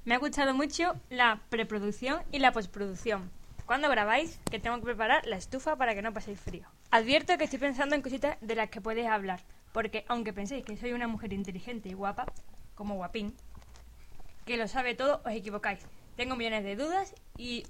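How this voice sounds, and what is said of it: Imitates another person's voice. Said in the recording (Spanish): “poner la voz de Uki leyendo el ... Mail ... pon la voz de Uki, por favor ... Imita a Uki”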